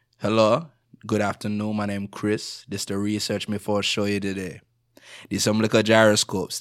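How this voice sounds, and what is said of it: Jamaican accent, slower speech. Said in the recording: “I'm of Jamaican descent. So when I'm back home, you bust out the accent. So I really talk like this and I speak a little slower, you know, and then I really pronounce things all the way.”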